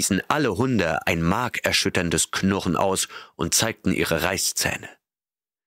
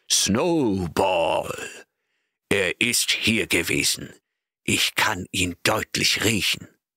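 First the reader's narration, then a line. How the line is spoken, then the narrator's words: Shouting in terrible voice. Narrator (German): rief dann mit furchtbarer Stimme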